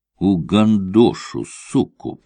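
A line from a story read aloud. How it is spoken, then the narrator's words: Hissed. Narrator (Russian): прошипел он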